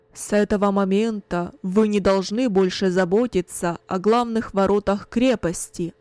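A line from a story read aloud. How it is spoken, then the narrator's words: Loud commanding announcement. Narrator (Russian): Кунерих громко, властным голосом объявил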